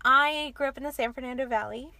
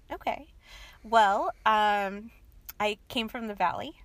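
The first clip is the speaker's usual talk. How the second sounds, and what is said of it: Put-on Valley Girl accent. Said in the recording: “That's my Valley Girl accent.”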